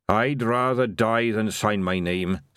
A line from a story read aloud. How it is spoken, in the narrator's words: said Boy Willie